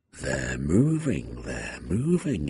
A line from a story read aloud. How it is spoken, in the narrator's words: whispered